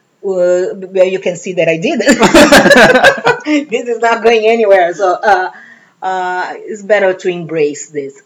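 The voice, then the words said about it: Slight Brazilian accent. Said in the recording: “you have a little bit of an accent ... Yes, I have an accent, and that's not going to get better ... that's a good accent ... I am originally from Brazil.”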